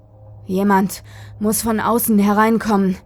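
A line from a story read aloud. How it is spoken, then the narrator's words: Gasping. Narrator (German): keuchte er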